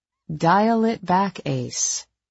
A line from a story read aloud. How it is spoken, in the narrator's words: I said calmly